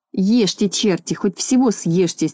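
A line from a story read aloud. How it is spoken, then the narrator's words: Angry muttering. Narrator (Russian): сердито бормотал он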